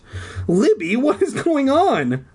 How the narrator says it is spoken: I cried in a tiny, frightened voice

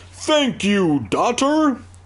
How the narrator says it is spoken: the snowman bellowed

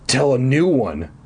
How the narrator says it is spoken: I insisted eagerly

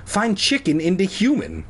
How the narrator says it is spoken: Cole exclaimed

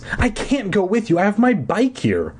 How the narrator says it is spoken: I cried desperately

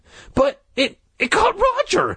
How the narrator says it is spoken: Jay cried shrilly

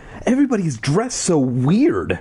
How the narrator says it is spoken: Ashley exclaimed

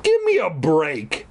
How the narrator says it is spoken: I cried angrily, like all the kids do in all the Goosebumps books

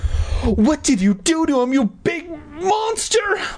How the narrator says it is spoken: Mindy shrieked

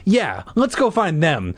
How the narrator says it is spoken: Clay said eagerly

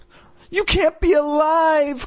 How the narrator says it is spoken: Chris exclaimed

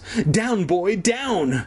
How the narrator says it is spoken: Kermit squealed

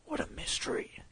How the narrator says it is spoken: said in a whisper

